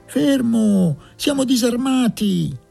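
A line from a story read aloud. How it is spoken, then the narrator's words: Distant shout. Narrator (Italian): gridò una voce dal fondo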